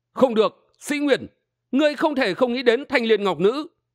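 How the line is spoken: Cry out. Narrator (Vietnamese): Đơn Minh kêu lên

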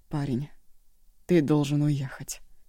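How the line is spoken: Hoarse, barely audible voice. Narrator (Russian): послышался хриплый, едва слышный голос

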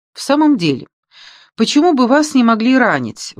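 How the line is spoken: Exclaimed. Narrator (Russian): воскликнула Мари

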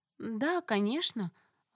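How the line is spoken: Uncertain. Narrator (Russian): выдала неуверенно

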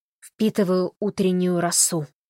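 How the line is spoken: Solemn announcement. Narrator (Russian): торжественно сообщил Холли

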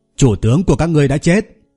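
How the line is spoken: Loud commanding shout. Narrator (Vietnamese): Lâm Hiểu Phong lớn tiếng quát

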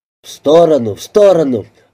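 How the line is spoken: Young man's exclamation. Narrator (Russian): воскликнул молодой человек

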